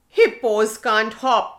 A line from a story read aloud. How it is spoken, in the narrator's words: shouted Hippo